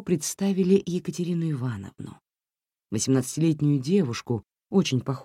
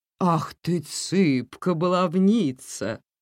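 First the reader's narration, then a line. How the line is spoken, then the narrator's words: Tender murmur. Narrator (Russian): нежно пробормотал Иван Петрович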